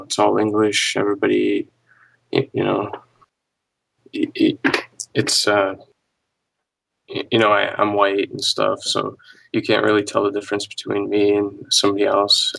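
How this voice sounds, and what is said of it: Russian accent, subdued gloomy tone. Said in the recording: “you sound like you just got the worst fucking news of your life right before this call ... You sound very Russian”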